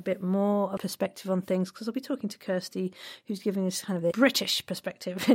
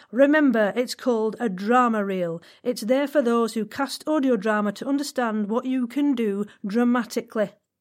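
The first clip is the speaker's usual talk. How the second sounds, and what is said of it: Put-on accent reading a quote. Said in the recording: “He doesn't speak like this. I'm just doing my accents.”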